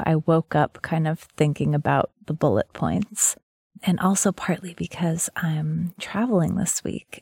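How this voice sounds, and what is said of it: Groggy just-woke-up voice. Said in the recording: “You may hear in my voice that I just got out of bed.”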